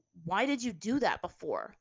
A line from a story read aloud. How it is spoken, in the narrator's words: Zuko asked, his tone accusing